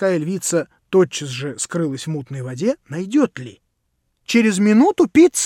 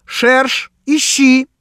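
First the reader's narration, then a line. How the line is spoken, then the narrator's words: Shouted. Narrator (Russian): крикнул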